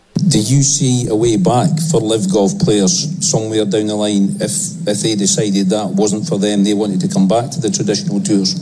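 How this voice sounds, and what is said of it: Scottish accent. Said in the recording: “is there any better accent than a Scottish accent? ... I need some more Scottish in my life ... It's sexy ... Just majestic”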